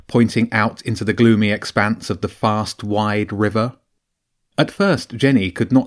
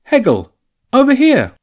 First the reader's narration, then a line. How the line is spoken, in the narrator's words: James called out